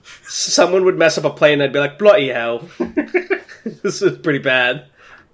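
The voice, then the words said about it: Put-on British accent. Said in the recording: “I started talking in a British accent ... my accent's changing”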